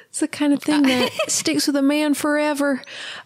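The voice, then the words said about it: Put-on Georgia Southern accent. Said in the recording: “we sign off with a voice ... they are in Georgia, so there is an accent.”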